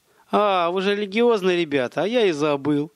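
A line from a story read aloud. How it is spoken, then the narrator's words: Chuckling bandit. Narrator (Russian): хохотнул бандит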